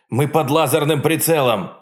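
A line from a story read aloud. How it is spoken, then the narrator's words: Shout. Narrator (Russian): выкрикнул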